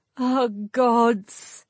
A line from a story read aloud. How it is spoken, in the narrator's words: Her voice sounded like a moan, even to her, and she forced herself to stay in control of her rising tears